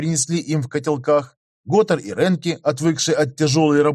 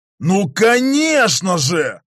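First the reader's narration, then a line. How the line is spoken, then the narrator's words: Yelled joyfully. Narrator (Russian): радостно заорал Готар, у которого мысль наконец догнала силу Ренки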